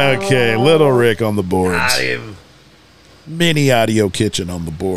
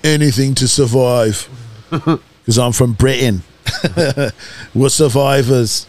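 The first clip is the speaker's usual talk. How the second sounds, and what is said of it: Put-on accent, sounds Australian. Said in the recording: “kind of like a Australian accent”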